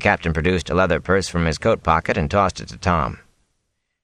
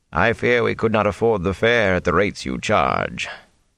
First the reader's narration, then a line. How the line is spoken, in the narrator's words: he added dryly